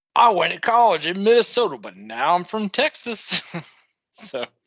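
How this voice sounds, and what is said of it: Fake Texas accent. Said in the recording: “what the fuck is with the accent? ... he's talking with a Texas accent”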